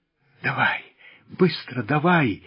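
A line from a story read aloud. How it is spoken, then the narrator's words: Feverish whisper. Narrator (Russian): лихорадочно шептал он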